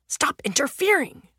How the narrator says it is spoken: the younger man hisses

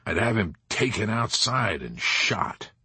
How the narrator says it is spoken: General Dreidel muttered

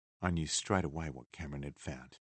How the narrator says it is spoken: Liz said

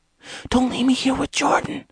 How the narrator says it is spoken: Angel whispered frantically

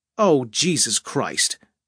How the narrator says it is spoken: she said, angrily

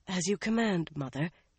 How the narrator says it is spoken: breathy murmurs

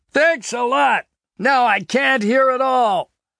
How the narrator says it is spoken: shout back at Vasquez

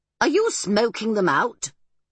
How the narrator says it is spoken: began to laugh

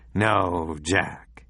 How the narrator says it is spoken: he said quietly

